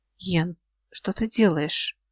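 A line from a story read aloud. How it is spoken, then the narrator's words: Hoarse low voice. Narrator (Russian): этот хриплый, низкий голос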